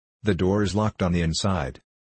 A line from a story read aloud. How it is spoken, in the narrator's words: exclaimed Clovis